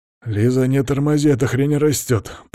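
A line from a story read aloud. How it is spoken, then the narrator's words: Through clenched teeth. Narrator (Russian): процедил Иван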